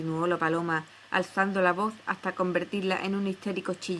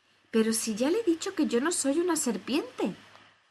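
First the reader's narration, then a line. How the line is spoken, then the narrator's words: Exclamation. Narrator (Spanish): exclamó Alicia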